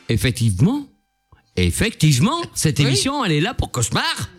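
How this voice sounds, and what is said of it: Put-on Antillean French accent. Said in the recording (French): “J'adore ton accent antillais. ... T'as vu, je l'ai travaillé.”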